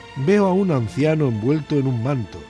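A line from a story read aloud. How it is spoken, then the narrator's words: Moaning. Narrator (Spanish): dijo gimiendo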